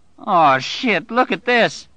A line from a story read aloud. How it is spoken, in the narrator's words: Bobby Terry cried in utter dismay